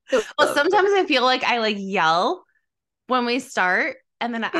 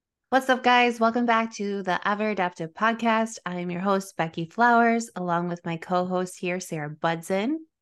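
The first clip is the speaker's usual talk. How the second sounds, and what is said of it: Soft, calming customer-service voice. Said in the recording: “Your voice got so soft when we started recording. ... that's my customer service voice ... It was very soft. Like calming this morning.”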